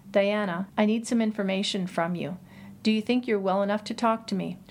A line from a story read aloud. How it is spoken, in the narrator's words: asked in a quiet, level voice